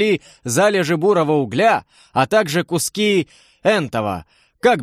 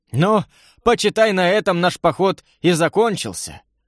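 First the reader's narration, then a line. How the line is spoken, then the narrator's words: Regretful sigh. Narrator (Russian): Вздохнул с сожалением Семен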